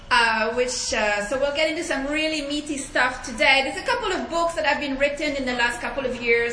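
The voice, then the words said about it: French-accented English. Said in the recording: “please forgive my accent, I'm French”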